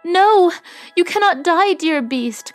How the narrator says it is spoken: cried Beauty

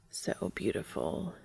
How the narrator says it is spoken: he murmurs

